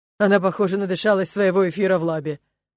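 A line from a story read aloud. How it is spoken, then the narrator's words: Male chuckle nearby. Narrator (Russian): хохотнул мужской голос рядом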